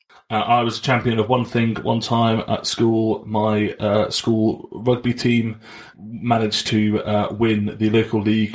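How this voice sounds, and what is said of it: Posh English accent. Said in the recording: “we're quite a posh school, as you can probably tell from my accent”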